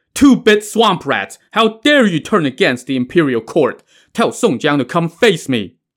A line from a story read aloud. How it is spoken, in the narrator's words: Guan Sheng roared